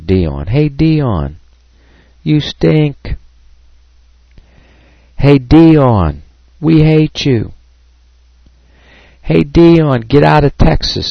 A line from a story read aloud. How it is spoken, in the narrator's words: a fan up in the stand starts screaming